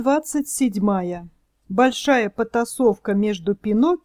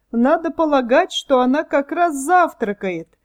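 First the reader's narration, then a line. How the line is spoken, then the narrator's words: Mocking. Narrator (Russian): насмешливо сказал один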